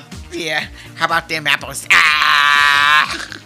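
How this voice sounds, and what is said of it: Bad put-on Boston accent. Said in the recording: “That was my Boston impression ... Terrible impression.”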